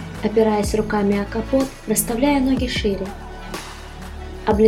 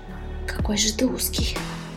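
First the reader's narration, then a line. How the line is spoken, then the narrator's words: Hoarse rasp. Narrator (Russian): Прохрипел Чинёль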